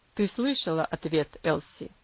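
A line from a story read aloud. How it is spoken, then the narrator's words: Cold, father. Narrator (Russian): холодно произнес отец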